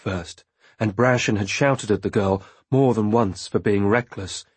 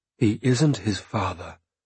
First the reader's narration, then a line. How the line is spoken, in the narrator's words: I said quietly